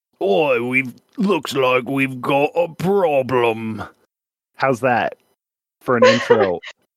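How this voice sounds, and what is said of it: Bad put-on cockney accent. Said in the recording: “your bad accent ... I had to get that cockney thing that some of these guys have out ... it's so bad ... It's really bad”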